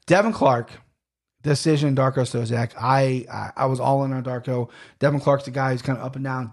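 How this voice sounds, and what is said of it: Hoarse, failing voice. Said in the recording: “what is going on with my throat? ... Now my voice is gone ... my throat's giving out on me”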